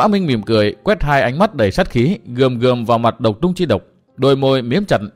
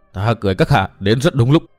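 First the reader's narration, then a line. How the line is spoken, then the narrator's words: Voice trembling with anger. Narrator (Vietnamese): Tư Mã Minh chàng cất giọng run run vì tức giận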